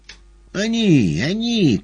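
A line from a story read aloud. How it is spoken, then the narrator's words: Bleating singsong. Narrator (Russian): козлиным голосом запел длинный клетчатый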